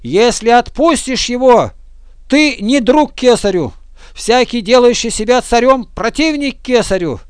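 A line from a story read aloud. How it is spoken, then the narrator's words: Shouting. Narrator (Russian): Иудеи же кричали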